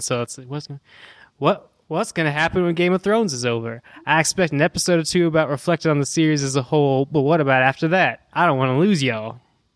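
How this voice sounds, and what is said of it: Put-on Texan accent. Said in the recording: “I'm supposed to do it in a Texan accent ... I am not good at accents ... it wasn't nearly as mid-julepy as mine ... it started to pull there right in the middle, and I had to pull back”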